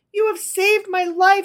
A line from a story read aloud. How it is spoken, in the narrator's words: she cried